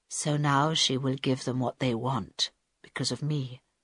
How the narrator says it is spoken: said Carl quietly

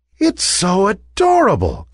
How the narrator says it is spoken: cried one of the ballerinas

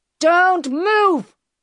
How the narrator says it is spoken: he shouted

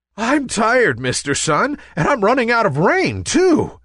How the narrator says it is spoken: gasped Nimbus

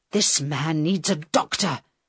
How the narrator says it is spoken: Carl said to the girl angrily

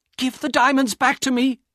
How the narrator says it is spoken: Elena cried

